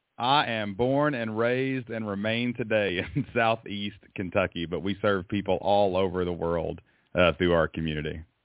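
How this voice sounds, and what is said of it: Southern US accent. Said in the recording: “I love the Southern accent”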